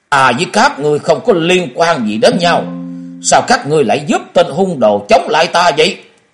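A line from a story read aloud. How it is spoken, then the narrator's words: Angry speech. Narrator (Vietnamese): Vừa nói ông ta vừa tức giận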